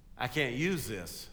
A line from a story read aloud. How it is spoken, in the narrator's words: said the CEO